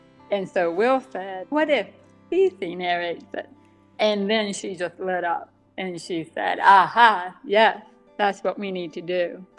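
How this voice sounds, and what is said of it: Deaf accent. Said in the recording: “the deaf accent, where there are certain sounds that I don't hear very well, and so my voice is a little different ... that deaf accent”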